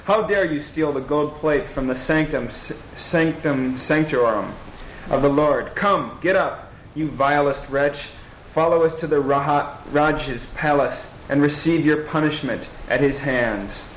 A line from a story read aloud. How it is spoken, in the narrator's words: they cried